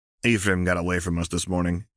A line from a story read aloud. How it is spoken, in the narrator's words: he grumbled